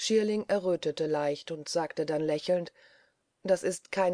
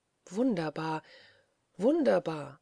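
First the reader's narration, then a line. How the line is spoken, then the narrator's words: Groaned. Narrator (German): stöhnte Marie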